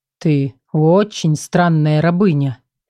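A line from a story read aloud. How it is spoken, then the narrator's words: Slow. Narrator (Russian): медленно проговорил тень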